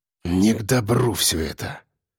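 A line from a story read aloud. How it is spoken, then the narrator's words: Exhaled words. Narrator (Russian): Выдохнул я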